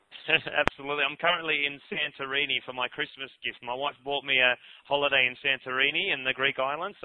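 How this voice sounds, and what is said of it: Australian accent. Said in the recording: “All the way from Australia, I might add, in case the accent didn't give you away.”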